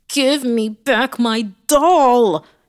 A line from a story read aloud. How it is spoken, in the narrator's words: he screamed